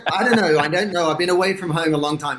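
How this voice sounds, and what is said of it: Australian accent. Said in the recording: “I'm from Sydney, Australia, which is why I sound funny.”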